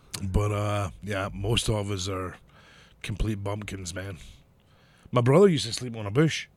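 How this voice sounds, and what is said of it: Scottish accent. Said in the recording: “Most Scottish people are very rednecky anyways. We might have this delightful accent.”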